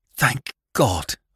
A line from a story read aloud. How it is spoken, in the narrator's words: I gasped out